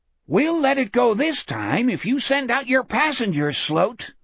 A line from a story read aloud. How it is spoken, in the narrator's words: the Etheridge thing yelled up